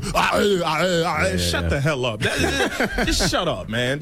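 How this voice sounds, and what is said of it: Imitates another person's voice. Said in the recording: “if you're gonna do Arnold Schwarzenegger”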